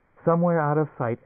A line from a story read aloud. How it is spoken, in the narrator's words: Emily squeaked